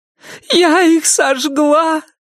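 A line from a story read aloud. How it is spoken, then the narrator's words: Muffled grief-stricken sobbing. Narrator (Russian): прорыдала Салли в мокрый бюст Ирен, и новый вал печали и горя накрыл ее с головой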